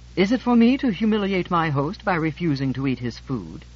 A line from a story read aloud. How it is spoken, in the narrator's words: George said haughtily